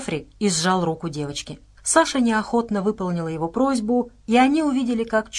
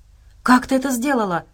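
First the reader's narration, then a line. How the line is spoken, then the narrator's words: Breathless while running. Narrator (Russian): выдохнула на бегу Настя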